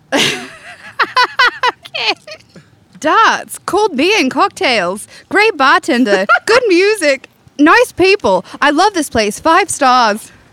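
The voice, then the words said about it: Put-on Australian accent. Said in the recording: “Do you want to do an Australian accent? ... That was a great Australian accent.”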